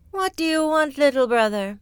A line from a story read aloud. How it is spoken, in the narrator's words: sighed the cloud